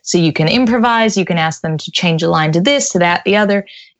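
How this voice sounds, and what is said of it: American accent. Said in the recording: “I have a genuine American accent”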